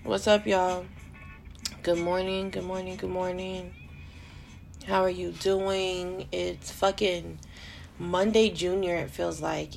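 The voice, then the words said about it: Tired, exhausted-sounding voice. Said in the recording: “You can probably hear the exhaustion in my fucking voice right now ... I need to drink some water or something because I sound like shit.”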